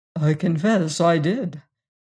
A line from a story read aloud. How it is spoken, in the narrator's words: replied quietly